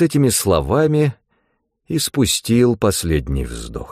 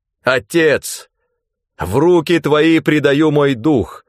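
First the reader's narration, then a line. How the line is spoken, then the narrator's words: Loud exclamation. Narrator (Russian): Иисус громким голосом воскликнул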